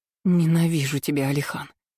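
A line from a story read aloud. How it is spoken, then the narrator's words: Breathy exhale. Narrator (Russian): Выдохнула ему в рот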